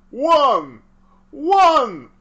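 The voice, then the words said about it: Impression of the Count from Sesame Street. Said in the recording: “your impression of the count from Sesame Street”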